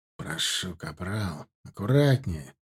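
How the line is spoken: Displeased, through clenched teeth. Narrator (Russian): недовольно процедил он

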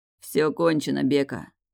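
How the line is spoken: Utterly calm, unafraid. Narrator (Russian): Предельно спокойно произносит Алихан, совершенно не пугаясь его угрозам

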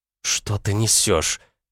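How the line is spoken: Through gritted teeth. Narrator (Russian): процедила Энди

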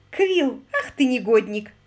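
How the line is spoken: Lady's exclamation. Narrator (Russian): воскликнула дама

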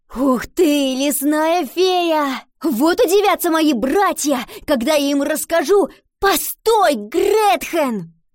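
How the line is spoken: Shouted. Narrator (Russian): крикнула Ива

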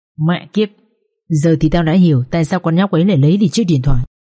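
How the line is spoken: Angry, through gritted teeth. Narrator (Vietnamese): Nghiến răng kèn kẹt, Jack nói bằng giọng giận dữ

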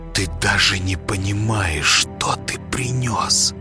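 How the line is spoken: Hissing. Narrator (Russian): Зашипела она

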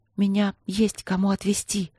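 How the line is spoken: Whispered. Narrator (Russian): прошептала герцогиня

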